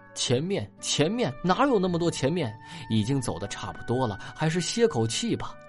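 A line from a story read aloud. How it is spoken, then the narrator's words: Breathless, exhausted, indignant. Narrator (Chinese): 疲乏的喘不过气的泥沙愤愤的说道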